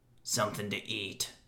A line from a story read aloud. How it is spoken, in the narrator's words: he mumbled